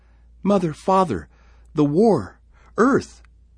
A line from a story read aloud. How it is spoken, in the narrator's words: sobbed